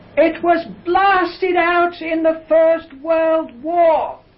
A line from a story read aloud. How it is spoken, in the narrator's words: the old gentleman, who would be about in his mid-70s, you know how deaf people sometimes speak rather loudly, he shouted out